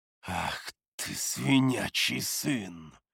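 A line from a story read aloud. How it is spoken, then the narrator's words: Growled. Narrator (Russian): Зарычал я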